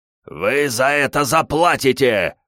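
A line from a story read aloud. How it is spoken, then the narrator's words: Growling, injured man. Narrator (Russian): продолжал рычать один из пострадавших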